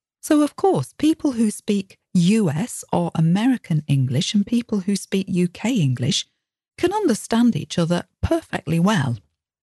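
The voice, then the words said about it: Slightly northern British accent. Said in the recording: “the British accent. My accent is one which would be well understood generally. It's a slightly northern accent, but not that much.”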